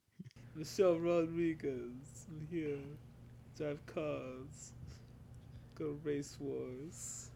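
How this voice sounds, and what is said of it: Dopey punch-drunk impression of actress. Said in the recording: “You made her sound like Rocky Balboa. ... is she deaf or special needs? you made her sound like she's got punched in the head a few times. ... terrible impersonation.”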